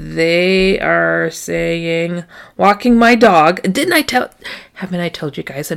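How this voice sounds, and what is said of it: Usual voice. Nothing is said of it.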